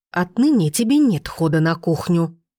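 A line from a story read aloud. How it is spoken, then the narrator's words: Woman hissing. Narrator (Russian): продолжала шипеть темноволосая красавица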